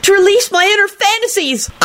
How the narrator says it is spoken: Kenny whined loudly

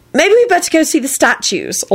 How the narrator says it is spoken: Elizabeth told Neville hastily

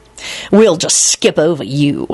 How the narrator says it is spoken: he snarled

